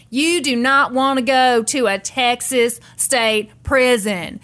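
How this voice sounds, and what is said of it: Impression of Nancy Grace. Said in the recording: “very good, good imitation ... You could be on Saturday Night Live if Nancy Grace was a big enough deal”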